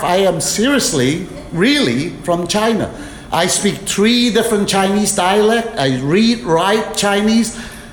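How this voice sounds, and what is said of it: Speaks with a noticeable accent. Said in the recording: “I speak with a funny accent.”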